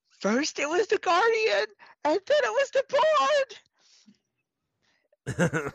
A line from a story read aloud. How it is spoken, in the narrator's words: in the distance Droop screams